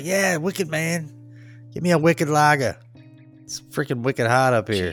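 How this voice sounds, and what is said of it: Imitated New England accent. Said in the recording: “I'm so glad I lost that accent. And I'm like, you haven't... it's not like wicked bad”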